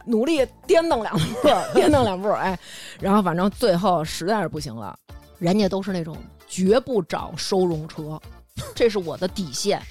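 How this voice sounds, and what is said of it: Heavy regional accent. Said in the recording (Chinese): “我这口音有点重”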